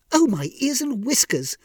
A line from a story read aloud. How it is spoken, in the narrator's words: exclaimed